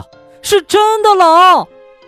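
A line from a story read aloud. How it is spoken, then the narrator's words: Shouted. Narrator (Chinese): 他叫道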